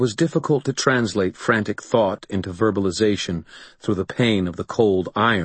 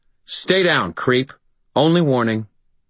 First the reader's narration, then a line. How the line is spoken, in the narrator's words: said in a hard voice